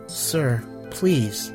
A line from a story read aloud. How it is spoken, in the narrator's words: he said quietly